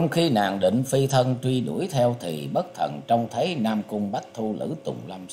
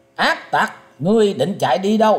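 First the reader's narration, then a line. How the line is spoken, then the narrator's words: Loud shout. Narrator (Vietnamese): Liễu Phụng Di quát to lên rằng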